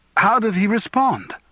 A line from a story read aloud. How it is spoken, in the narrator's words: he asked anxiously